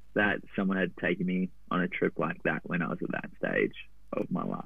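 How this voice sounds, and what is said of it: Australian accent. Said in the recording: “you're originally from Australia. I don't know if anyone can tell by the accent, but um, sounds a bit like me.”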